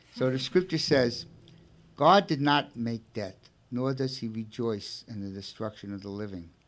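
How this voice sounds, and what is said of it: Brooklyn accent. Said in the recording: “I have a Brooklyn accent... forgive my Brooklyn accent”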